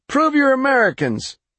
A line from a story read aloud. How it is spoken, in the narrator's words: the voice called out